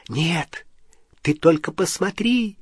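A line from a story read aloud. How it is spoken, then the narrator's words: Cheerful whisper. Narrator (Russian): весело зашептала Полумна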